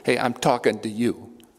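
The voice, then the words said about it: Put-on Bronx accent. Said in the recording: “I think he says it in a Bronx accent too.”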